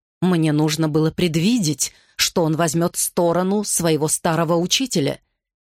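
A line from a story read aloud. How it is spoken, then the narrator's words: Angry. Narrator (Russian): сердито говорил он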